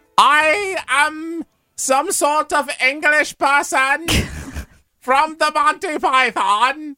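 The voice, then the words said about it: Over-the-top English accent. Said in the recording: “The only English accent I know is like the crazy Monty Python. ... It's over the top.”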